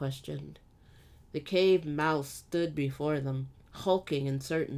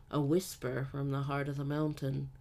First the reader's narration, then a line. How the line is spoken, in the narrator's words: Tal murmured to herself